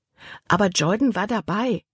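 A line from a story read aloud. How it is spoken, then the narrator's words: Plain answer. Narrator (German): antwortete Libby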